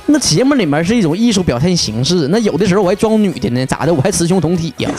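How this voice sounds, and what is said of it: Jinzhou Northeastern Chinese accent. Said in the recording (Chinese): “怎么老是锦州口音呢？你是锦州人呐？”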